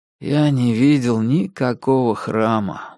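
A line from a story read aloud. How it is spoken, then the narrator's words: Tired. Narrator (Russian): устало сказал я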